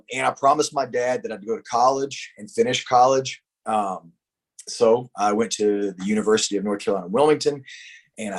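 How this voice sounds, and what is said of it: North Carolina Southern accent. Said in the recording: “a guy from North Carolina with this accent”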